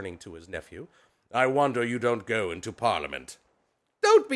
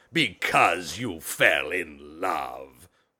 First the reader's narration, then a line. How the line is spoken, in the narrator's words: growled Scrooge, as if that were the only thing in the world more ridiculous than a Merry Christmas